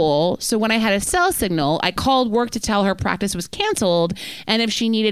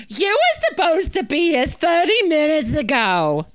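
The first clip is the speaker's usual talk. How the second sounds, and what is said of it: Screaming imitation of another person. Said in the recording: “She responded by screaming ... That's what I think she sounds like. ... I think I'm doing a spot on impression of her”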